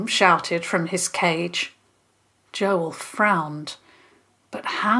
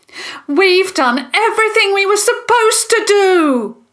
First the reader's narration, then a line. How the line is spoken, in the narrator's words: Jasmine shouted